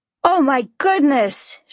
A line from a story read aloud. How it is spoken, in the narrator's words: she exclaimed excitedly